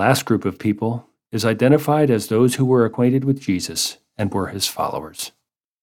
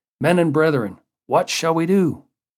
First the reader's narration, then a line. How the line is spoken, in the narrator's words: their consciences convicted them, and they cried out